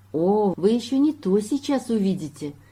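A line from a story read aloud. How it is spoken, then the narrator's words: Cheerful. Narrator (Russian): весело сказала оранжевое горлышко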